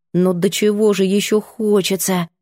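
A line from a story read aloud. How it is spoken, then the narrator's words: Mumbled. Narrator (Russian): пробормотала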